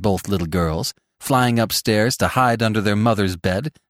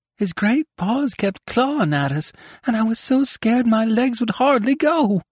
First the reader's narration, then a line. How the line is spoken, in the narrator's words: quavered Roxy